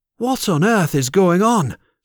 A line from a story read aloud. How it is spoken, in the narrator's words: Zadua cried